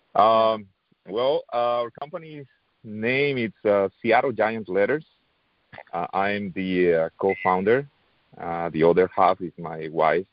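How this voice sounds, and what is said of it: Non-native English accent. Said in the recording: “my accent is not the best ... still working on my accent, still working on my English”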